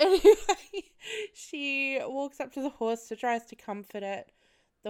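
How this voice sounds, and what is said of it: Usual voice. Nothing is said of it.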